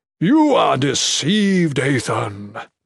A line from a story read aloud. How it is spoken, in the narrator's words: Mikik boomed